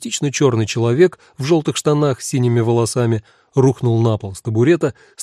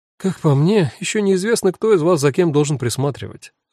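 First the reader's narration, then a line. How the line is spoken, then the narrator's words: Sighing. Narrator (Russian): вздохнула Эва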